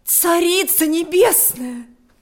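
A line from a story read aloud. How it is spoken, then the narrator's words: Exclaiming. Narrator (Russian): воскликнула она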